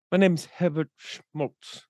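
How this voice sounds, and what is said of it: Put-on English accent. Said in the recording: “with like the English accent.”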